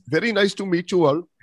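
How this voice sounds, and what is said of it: Put-on Indian accent. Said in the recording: “we would love to hear your Indian accent now ... I can very much pull my Indian accent out”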